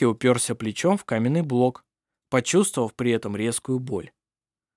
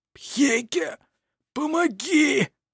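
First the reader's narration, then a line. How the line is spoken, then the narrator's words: Hoarse strained. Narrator (Russian): Хрипло выдавил из себя Петер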